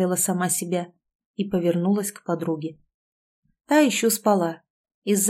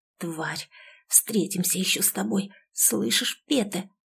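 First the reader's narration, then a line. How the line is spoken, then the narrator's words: Delirious whisper. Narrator (Russian): как в бреду шептала она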